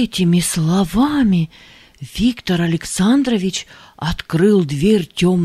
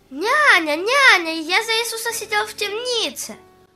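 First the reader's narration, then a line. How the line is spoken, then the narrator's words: Cheerful shout. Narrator (Russian): Аня весело крикнул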